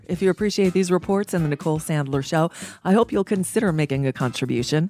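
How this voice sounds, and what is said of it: Voice a little off from a cold. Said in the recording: “my voice is a little off. I'm under the weather. I'm fighting back a winter cold.”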